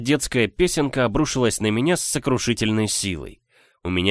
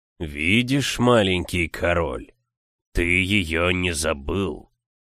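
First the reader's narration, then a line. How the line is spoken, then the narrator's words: Hoarse stony voice. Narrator (Russian): прохрипел каменный голос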